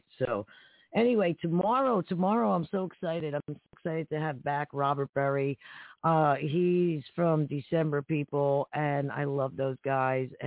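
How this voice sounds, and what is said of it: Short of breath, strained voice. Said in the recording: “I apologize for my voice tonight. I need my inhaler. ... I don't have enough air tonight.”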